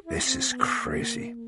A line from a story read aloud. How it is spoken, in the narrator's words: said in a whisper